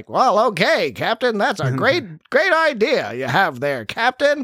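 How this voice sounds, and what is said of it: Mid-Atlantic 1940s movie star accent. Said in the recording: “speaking with like a mid-Atlantic, like 1940s movie star, like kind of like that accent”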